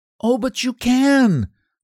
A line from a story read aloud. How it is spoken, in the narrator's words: cried Effie